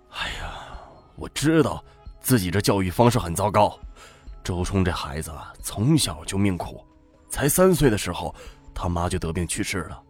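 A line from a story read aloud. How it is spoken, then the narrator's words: Sad sigh. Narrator (Chinese): 周元被乔治戳中软肋，心中一酸，叹气道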